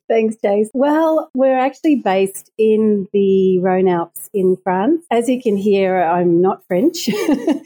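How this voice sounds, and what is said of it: Australian accent. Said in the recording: “I can hear by your accent, you are obviously not European. I'm picking up a little Aussie there ... I'm Australian”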